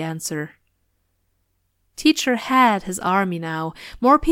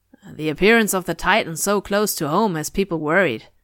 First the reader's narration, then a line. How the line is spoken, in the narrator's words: another man said